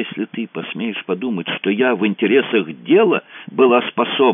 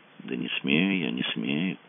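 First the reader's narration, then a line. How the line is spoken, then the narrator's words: Weary. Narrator (Russian): сказал Мазур устало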